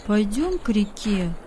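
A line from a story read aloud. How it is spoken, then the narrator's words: Plain. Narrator (Russian): сказал Давид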